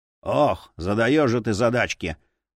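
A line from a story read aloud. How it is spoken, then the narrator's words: Grumbling. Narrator (Russian): проворчал Асмунда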